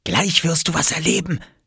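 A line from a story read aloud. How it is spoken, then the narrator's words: Whisper. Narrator (German): flüsterte Oskar Lars zu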